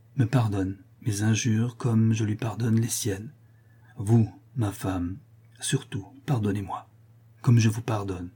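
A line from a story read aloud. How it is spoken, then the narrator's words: Weaker voice. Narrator (French): dit-il d'une voix plus faible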